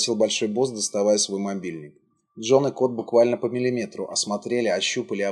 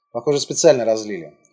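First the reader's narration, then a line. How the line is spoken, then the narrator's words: Cold. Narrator (Russian): холодно сказал Джон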